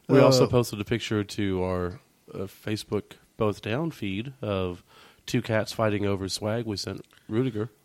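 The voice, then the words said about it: Hoarse, nearly lost voice. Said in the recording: “my voice is almost gone. It's better than it has been. ... I think it's allergies. I think it was a combination of my I got some type of illness and then allergies on top of that.”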